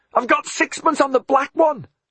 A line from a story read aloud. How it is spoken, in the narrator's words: Alfred shouted back